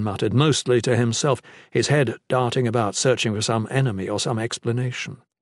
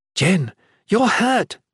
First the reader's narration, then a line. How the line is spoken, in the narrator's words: exclaimed